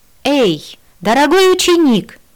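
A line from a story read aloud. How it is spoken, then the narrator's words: Yelling. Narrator (Russian): завопила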